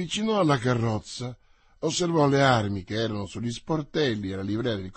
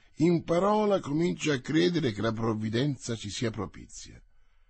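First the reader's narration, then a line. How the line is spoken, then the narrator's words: Commanding order. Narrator (Italian): ordinò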